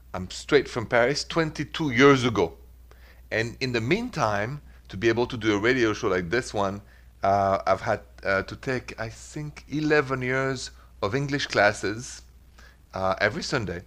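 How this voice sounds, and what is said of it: Thick French accent. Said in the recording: “The accent, French ... such a thick French accent”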